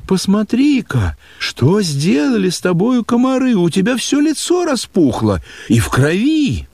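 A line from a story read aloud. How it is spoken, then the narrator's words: Alarmed cry. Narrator (Russian): вглядевшись в мое лицо, она вскрикнула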